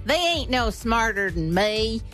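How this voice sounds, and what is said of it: Put-on Southern US accent. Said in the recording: “that was a southern accent. That was probably wrong”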